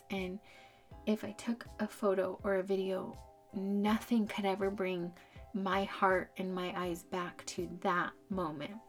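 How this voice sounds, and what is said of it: Shaky, emotional voice. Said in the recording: “my voice is getting shaky there”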